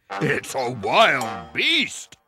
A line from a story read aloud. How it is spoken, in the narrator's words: Papa Bear growled